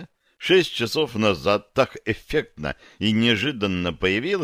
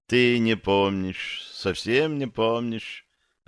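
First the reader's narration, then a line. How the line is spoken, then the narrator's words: Sad. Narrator (Russian): печально сказала она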